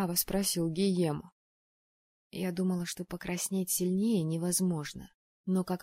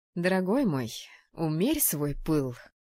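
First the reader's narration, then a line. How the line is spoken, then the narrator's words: Stern rebuke. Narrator (Russian): строго одернула его Тереза, сурово добавила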